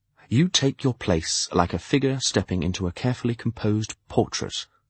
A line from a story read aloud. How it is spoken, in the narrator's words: I observed quietly